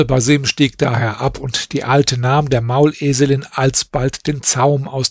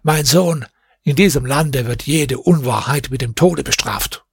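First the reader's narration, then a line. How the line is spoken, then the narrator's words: Old man speaking. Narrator (German): der Greis sagte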